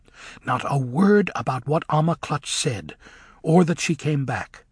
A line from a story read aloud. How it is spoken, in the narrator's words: said Elphaba urgently